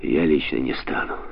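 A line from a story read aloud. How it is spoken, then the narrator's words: Glum. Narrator (Russian): уныло поморщился Смит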